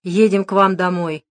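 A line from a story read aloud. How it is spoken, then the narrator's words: Grim. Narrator (Russian): мрачно сообщил Дронго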